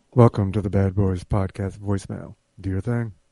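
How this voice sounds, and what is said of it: Sultry, put-on sexy voice. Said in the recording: “trying to do sexy voice.”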